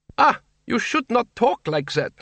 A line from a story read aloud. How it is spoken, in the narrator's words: said Doreen haughtily